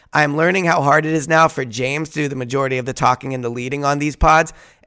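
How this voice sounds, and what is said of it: Hoarse, strained voice. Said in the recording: “losing my voice, I've been losing mine over the last few days”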